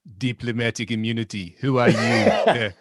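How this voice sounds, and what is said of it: Put-on South African accent. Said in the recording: “could you redo that in a South African accent for me, please? ... Outstanding.”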